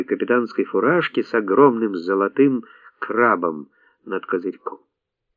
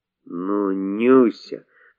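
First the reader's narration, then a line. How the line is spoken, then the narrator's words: Babbling mumble. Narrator (Russian): пролепетал краснорожий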